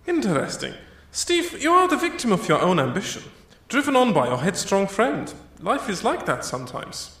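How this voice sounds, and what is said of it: Soft, lovely accent. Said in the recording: “your lovely, soft accent”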